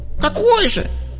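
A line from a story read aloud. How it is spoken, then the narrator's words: Squeak. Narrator (Russian): пискнул Плинта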